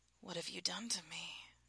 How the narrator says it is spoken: Rhiannon murmured

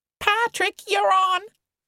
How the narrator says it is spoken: Cody was screaming gleefully

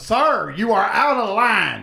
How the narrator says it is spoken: that guy yelling

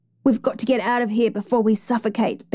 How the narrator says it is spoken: Benson said, gasping

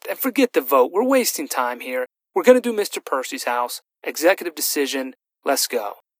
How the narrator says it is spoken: Ash snapped

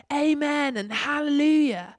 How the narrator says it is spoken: they cried

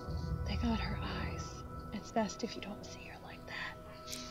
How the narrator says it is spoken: whispered

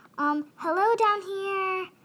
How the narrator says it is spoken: screamed Ralph, trying to get someone's attention

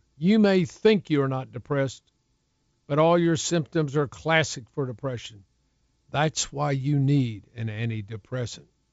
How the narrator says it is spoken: her doctor sternly addressed her

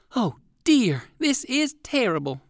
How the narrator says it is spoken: exclaimed Uncle Wiggily

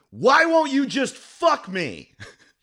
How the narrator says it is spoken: looked me dead in my face and yelled at me

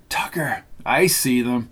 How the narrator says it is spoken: Kathryn whispered

